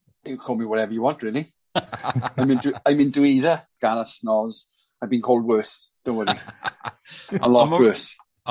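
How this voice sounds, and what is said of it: Welsh accent. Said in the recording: “the Welsh accent”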